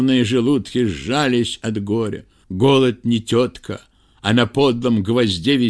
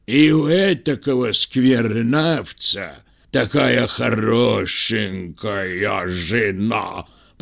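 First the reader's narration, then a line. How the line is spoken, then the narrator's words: Hoarse bass from another room. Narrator (Russian): послышался сиплый бас из гостиной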